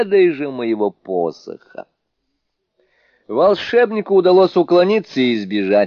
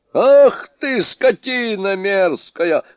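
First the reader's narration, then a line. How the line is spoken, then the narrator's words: Yelling back. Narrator (Russian): заорал в ответ Суню-кун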